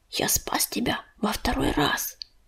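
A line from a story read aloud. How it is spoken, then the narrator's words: Whisper. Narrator (Russian): прошептал Грачик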